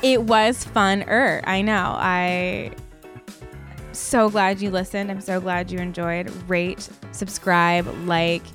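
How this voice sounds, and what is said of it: Creaky vocal fry voice. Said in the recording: “my vocal fry”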